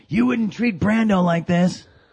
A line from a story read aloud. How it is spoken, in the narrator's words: he screams to Francis in front of everybody